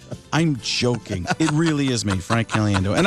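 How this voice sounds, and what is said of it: Usual voice. Nothing is said of it.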